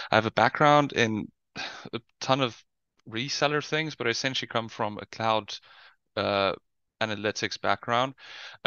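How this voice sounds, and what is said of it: South African accent. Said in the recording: “You might hear from the accent. I'm from South Africa.”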